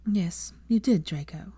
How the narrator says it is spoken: Hermione said soothingly

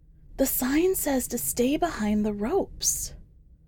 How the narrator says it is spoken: his wife whispers

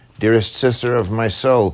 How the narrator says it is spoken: cried Wallace

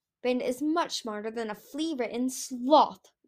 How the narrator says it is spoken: Winter snapped

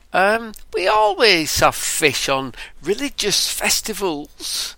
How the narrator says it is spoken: exclaimed Sarah

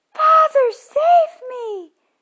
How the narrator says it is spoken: cried Tom

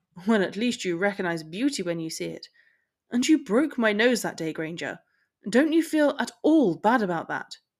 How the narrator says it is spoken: scoffed

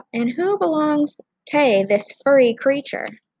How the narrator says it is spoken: He grinned and called out

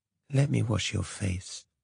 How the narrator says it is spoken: she said

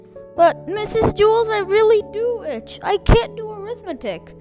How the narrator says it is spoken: Dana whined

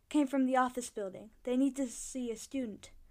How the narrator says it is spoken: he panted

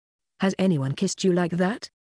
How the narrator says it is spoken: Lyo asks, and his voice is rough and beautiful

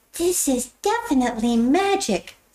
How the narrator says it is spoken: exclaimed Alex

